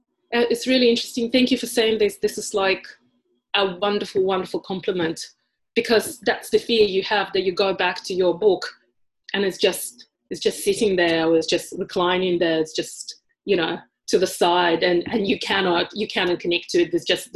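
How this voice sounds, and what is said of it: Heavy non-native accent. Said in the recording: “I was painfully aware of my accent ... this accent is so heavy ... other days and I will sound almost Australian ... But I'm not passing today”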